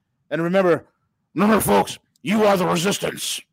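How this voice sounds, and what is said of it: Imitates another person's voice. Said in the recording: “my Alex Jones impersonation ... very good. I'm, I'm impressed.”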